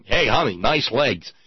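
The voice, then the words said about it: Put-on construction worker accent. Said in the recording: “I'm even using an accent to do that”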